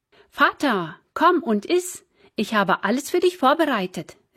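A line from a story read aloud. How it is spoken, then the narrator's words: Called out. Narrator (German): rief Esau ihm zu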